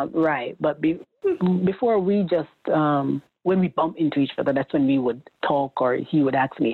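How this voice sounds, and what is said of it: Usual voice. Nothing is said of it.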